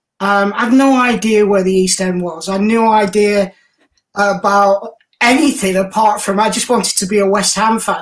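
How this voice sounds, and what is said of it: East Lancashire English accent. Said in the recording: “you couldn't buy those kind of things in East Lancashire, you can tell with my accent”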